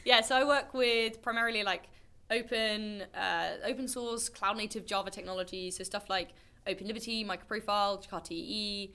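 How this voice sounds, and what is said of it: British accent. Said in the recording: “If you can't tell from my accent, based in the UK.”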